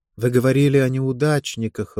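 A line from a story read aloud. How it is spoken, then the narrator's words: Even voice. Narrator (Russian): ровным голосом сказала она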